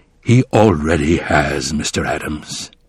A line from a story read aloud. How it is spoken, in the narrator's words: said in a low voice